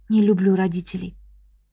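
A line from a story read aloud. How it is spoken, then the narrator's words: Quiet whisper. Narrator (Russian): Чон Мин тихо прошептала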